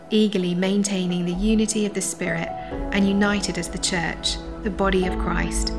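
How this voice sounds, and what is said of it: British accent. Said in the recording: “everything sounds better with a British accent”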